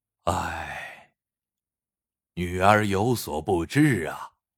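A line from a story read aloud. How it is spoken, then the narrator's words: Sighing. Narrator (Chinese): 邱奇叹了口气道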